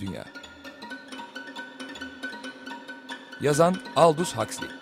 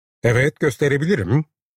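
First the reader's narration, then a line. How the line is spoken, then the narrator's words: Very loud voice. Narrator (Turkish): dedi Burner çok yüksek bir sesle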